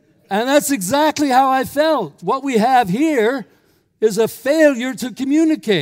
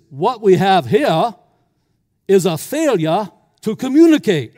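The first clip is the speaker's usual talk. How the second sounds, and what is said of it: Weak put-on southern accent. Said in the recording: “with a very southern accent, which I'm not very good at”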